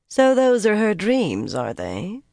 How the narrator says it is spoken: Carlinia said coolly

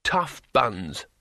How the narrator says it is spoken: snapped Rincewind

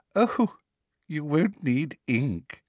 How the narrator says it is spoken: said Professor Umbridge, with the merest suggestion of a laugh in her voice

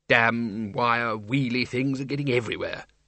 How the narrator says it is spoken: he muttered

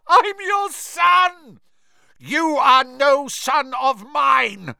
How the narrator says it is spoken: bellowed Mr

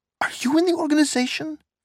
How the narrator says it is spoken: The third teenager, a plump, red-faced boy, gazed in awe at Nina and squeaked

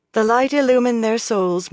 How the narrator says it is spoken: Moiraine said solemnly

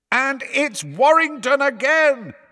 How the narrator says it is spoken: bellowed Lee

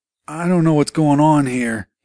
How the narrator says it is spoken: moaned into the phone

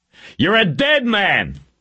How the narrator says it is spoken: Reacher yelled

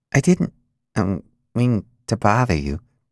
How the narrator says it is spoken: Ian mumbled

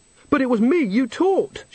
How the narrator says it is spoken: she said desperately

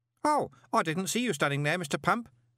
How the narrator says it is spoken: said Stanley cheerfully

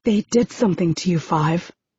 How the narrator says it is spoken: I say, almost whispering, feeling both sad for Five and horrified by him

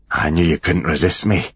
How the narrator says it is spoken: breathed

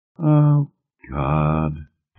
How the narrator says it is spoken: Eleanor said wearily

